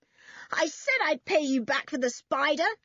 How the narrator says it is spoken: yelled George

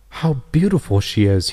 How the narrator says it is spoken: he exclaimed

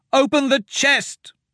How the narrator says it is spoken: Myra shouted

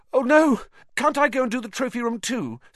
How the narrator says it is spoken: said Harry desperately

